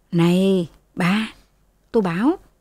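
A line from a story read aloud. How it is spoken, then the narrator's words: Sighing. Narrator (Vietnamese): Thừa thở dài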